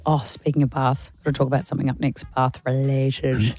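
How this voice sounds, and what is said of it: Hoarse, weak voice. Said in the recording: “Sorry, my voice. My voice isn't back”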